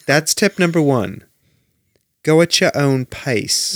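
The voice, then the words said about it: Put-on British accent. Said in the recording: “Should I try to do this in a British accent? ... No, wrong.”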